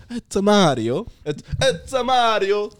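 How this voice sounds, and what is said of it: Loud stereotypical Italian Mario voice. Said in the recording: “In order to get into the Italian ... You need to get a little bit loud”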